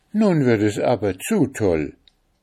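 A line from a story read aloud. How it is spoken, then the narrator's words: Angry exclamation. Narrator (German): rief zornig aus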